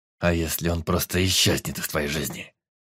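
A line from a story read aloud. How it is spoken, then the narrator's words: Through clenched teeth. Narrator (Russian): процедил Эдмир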